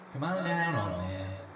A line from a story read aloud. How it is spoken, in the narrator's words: she taunted him